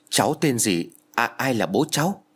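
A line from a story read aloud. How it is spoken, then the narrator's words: Trembling question. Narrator (Vietnamese): giọng run rẩy Nam hỏi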